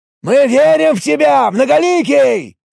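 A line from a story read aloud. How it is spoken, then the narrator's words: Elf's loud yell. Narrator (Russian): Снова заорал эльф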